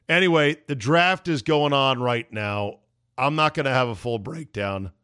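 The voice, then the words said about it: Strained voice, nearly gone. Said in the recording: “As you can hear, my voice is on the edge of losing it.”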